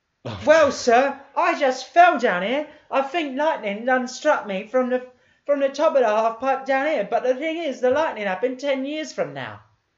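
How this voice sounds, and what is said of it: Thick put-on Cockney accent. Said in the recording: “in a thick Cockney accent”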